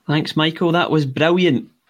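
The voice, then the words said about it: Put-on Scottish accent. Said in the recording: “Scottish. Wow. That's a high bar. ... You sounded Scottish.”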